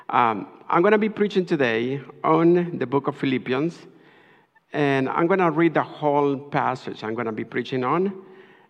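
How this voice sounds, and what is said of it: Spanish accent. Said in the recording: “my Spanish accent”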